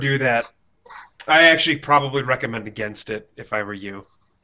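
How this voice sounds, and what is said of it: Smooth radio announcer voice. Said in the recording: “you sound a good, sexy radio kind of voice... I've used my radio voice”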